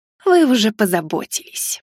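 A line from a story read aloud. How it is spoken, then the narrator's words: Woman's snake-like hiss. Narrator (Russian): змеей прошипела незнакомка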